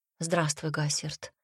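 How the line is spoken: Quiet, indifferent. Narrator (Russian): произнесла тихо и безразлично

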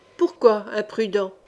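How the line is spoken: Captain grumbling. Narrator (French): grogna le capitaine

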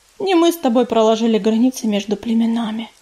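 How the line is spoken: Sighing. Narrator (Russian): вздохнула Пепелица

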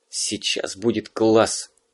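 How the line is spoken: Whispered. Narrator (Russian): шепнул Вовка приятелю

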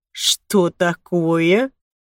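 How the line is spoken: Surprised drawl. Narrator (Russian): удивленно протянул Лука

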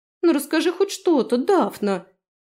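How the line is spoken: Offended drawl, young girl. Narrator (Russian): обиженно протянула дочь аптекаря

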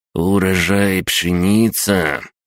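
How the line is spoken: Drawling. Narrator (Russian): протянул он

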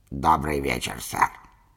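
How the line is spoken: Creaky voice. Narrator (Russian): кто-то скрипучим голосом произнес

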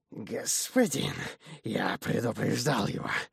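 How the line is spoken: Servile demon hiss. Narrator (Russian): подобострастное шипение беса

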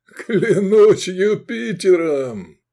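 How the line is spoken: Loud laughter. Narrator (Russian): захохотал Квиет

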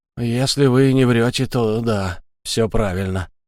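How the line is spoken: Grumbled reply. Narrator (Russian): буркнул он в ответ

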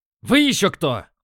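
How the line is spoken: Barking. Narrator (Russian): рявкнул

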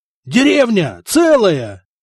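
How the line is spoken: Yelled with delight, warrior. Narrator (Russian): восторженно завопил воин

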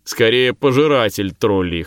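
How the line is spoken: Chuckling. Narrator (Russian): хохотнул слева Тулли

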